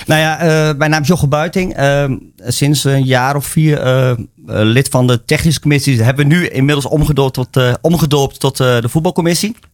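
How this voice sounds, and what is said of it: Achterhoek regional Dutch accent. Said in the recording (Dutch): “Ik kom van buitenaf. Dat hoor je misschien wel uit de accent. Ik kom uit de Achterhoek oorspronkelijk.”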